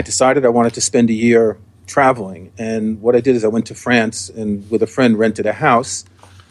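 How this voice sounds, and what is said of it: New York accent. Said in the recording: “I was born and raised in New York, as you can probably tell from my accent.”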